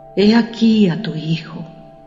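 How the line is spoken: Whispering. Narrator (Spanish): susurró

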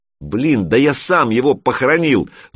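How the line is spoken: Shout. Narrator (Russian): закричал Санек

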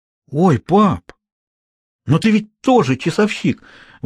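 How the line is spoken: Exclaiming. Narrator (Russian): воскликнул Хьюго

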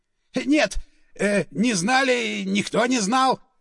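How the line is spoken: Squealing. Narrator (Russian): визжал он

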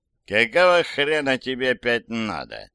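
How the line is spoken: Groggy grumbling. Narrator (Russian): пробурчал вышедший из анабиоза катерник

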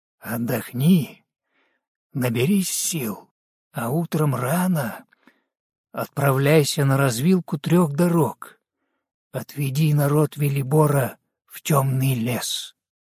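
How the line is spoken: Hushed private whisper. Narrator (Russian): тихим голосом, недоступным для других ушей, прошептал

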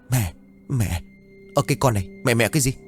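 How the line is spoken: Trembling stammer. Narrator (Vietnamese): Thắm lắp bắp run rẩy

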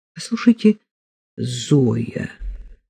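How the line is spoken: Slow. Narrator (Russian): сказал Троепольский медленно

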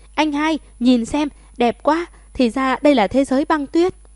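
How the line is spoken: Sudden excited exclamation. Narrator (Vietnamese): Thẩm Hà … đột nhiên … kêu lên

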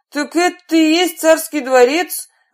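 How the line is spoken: Bear exclaiming. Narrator (Russian): воскликнул медведь

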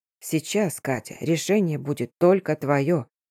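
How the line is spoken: Quiet. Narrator (Russian): тихо сказал он

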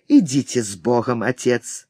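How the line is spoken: Hoarse voice. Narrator (Russian): Блэксорн хрипло сказал по-испански

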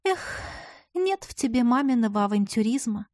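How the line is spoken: Long-suffering sigh, ghostly. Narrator (Russian): Страдальчески вздохнула призрачная собеседница

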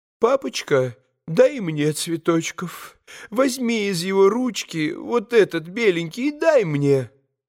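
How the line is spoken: Sobbing deranged mother pleading. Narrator (Russian): всхлипывая, попросила помешанная мамочка

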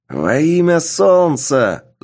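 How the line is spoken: Shouted. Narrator (Russian): закричал Солми

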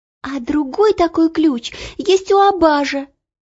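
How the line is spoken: Sharp cry. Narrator (Russian): вскрикнула Ело

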